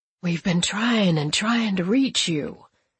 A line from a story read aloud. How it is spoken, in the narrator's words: he says in a muffled voice